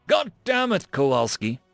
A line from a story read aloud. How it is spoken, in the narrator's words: Bradford chuckled